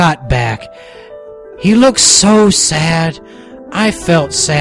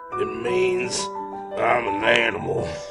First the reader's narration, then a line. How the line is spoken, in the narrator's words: he said quietly